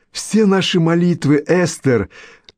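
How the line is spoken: Laughing. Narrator (Russian): засмеялась миссис Белдербосс

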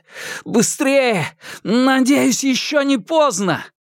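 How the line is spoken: Shouting. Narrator (Russian): закричал Хуянь Юнь

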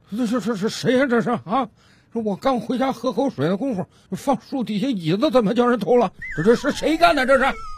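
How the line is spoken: Old man muttering to himself. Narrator (Chinese): 这老大爷自言自语的嘟囔道

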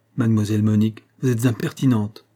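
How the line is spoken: Plain. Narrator (French): dit M

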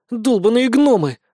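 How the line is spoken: Sulky sigh. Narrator (Russian): вздохнула надувшая губки Вика

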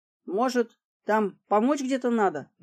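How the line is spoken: Hesitant, reluctant question. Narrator (Russian): неуверенно, явно надеясь на отрицательный ответ, спросил подносчик Журавлев

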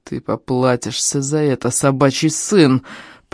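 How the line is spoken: Strongman through gritted teeth. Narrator (Russian): процедил силач

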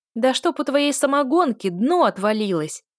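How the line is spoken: Shouted, female voice. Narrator (Russian): прокричали в ответ женским

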